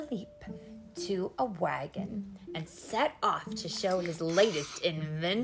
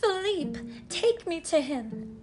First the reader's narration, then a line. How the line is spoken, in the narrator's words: she cried